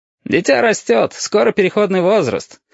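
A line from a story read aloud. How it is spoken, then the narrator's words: Snorting remark. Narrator (Russian): хмыкнул красный шар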